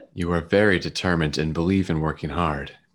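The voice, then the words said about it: Put-on sexy voice. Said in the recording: “let me get my sexy voice going”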